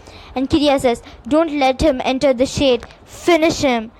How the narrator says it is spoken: he shouts as much as he can

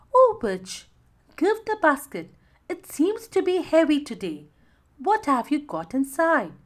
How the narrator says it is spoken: the mermaid asked sweetly

